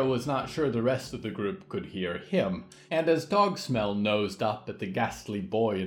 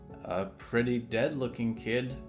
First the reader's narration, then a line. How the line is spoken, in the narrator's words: muttered Johanna